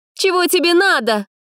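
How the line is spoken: Indignant shout, young woman. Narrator (Russian): возмущенно крикнула девушка

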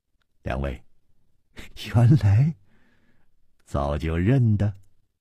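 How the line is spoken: Laughing. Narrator (Chinese): 笑道

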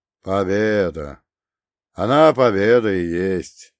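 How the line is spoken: Grumbling. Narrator (Russian): проворчал он

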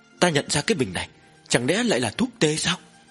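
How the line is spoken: Trembling voice. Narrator (Vietnamese): Dư thái y run rẩy nói

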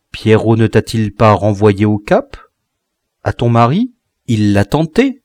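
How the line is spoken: Plain. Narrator (French): répondit-elle

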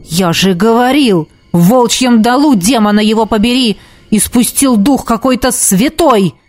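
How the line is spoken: Barked. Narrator (Russian): рявкнул темный маг

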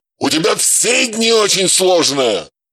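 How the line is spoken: Barked. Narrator (Russian): рявкнул Матвей

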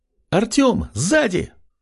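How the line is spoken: Alarmed shout. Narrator (Russian): С тревогой в голосе выкрикнула Кристина

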